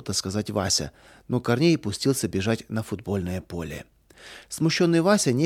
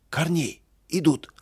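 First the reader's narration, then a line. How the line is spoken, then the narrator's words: Frightened shout. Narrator (Russian): Испуганно закричал он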